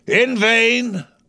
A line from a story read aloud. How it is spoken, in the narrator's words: cried Ahab